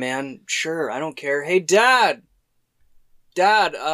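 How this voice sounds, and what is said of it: Usual voice. Nothing is said of it.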